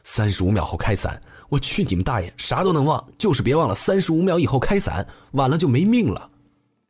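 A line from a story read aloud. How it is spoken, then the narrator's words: Hoarse screaming. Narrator (Chinese): 我嘶吼着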